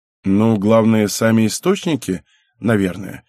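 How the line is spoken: Plain. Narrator (Russian): ответил Райдон

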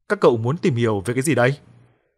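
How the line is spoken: Stern, grumpy old voice. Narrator (Vietnamese): Lão ta nhăn nhó chen lời bằng chất giọng hết sức nghiêm nghị, hơi khó tính

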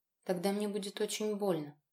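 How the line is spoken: Barely audible whisper. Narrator (Russian): еле слышно прошептала я

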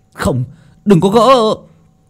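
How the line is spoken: Group shouting. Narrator (Vietnamese): những người khác hét lên

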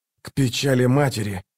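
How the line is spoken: Hoarse rasping between blows. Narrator (Russian): хрипел он между ударами

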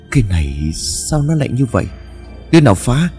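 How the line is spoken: Startled stammering. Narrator (Vietnamese): Ông Lãm giật mình rồi lắp bắp

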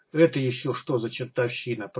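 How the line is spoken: Confused mutter. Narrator (Russian): пробормотал Смычок растерянно

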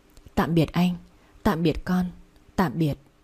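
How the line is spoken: Faint murmur. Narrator (Vietnamese): miệng khẽ mấp máy

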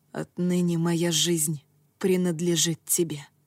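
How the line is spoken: Whisper. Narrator (Russian): прошептал Тацуми

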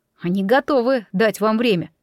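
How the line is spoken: Plain. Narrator (Russian): сказал он

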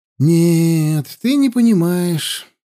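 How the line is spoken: Sighing. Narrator (Russian): вздохнул наместник

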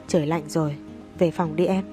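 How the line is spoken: Charming, alluring voice. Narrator (Vietnamese): Nam Cung Phong nói bằng chất giọng cuốn hút

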